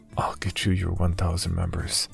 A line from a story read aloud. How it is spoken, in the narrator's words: I whispered